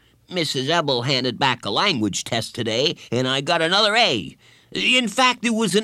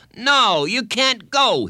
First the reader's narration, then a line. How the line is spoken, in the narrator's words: he shouted